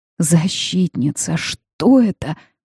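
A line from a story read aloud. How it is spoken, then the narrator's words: Pained rasp. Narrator (Russian): прохрипела, прижимая ладони к груди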